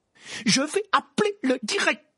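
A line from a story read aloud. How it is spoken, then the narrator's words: Exclaiming. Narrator (French): s'écria le professeur McGonagall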